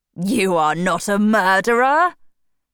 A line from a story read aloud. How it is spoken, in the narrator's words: replied and laughed